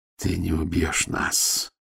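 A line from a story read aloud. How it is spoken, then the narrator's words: Muffled, hollow voice. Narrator (Russian): глухо проговорил Матео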